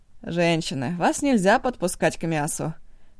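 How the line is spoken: Grumbling. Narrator (Russian): бурчал Ашоси

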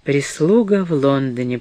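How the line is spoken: Quiet repetition. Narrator (Russian): повторила мама тихо

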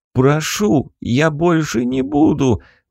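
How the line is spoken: Pleading prisoner. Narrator (Russian): взмолился пленник

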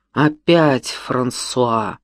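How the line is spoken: Angry smirking speech. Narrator (Russian): зло усмехнувшись, сказал он

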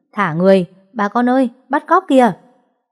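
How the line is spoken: Hurried loud shouting. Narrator (Vietnamese): họ vội hét lớn

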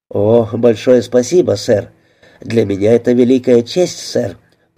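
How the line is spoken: Fawning exclamation. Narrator (Russian): подобострастно воскликнул Найджел

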